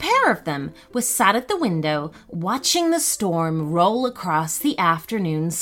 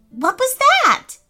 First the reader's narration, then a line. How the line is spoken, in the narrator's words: shouted Gus, jumping away from the window